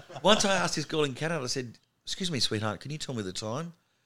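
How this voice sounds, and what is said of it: Australian accent with twang. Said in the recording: “It's a twang for us... Canadians, when they hear our accent, they know straight away you're Australian.”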